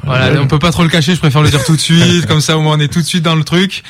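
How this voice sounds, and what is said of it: Slight Marseille accent. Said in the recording (French): “ça va s'entendre déjà, je viens de Marseille ... C'est vrai qu'il y a un petit accent.”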